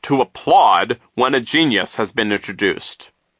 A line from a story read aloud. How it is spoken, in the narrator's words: he said sternly